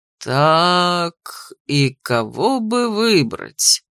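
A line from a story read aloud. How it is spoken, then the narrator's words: Drawled. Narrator (Russian): протянул ректор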